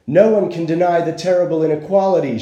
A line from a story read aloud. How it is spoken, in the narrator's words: she cried